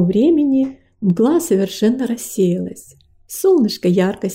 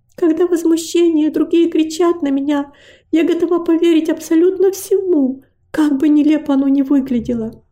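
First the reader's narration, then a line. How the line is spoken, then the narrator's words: Weary sighing reply. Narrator (Russian): Девочка с трудом подняла на него глаза и, вздохнув, ответила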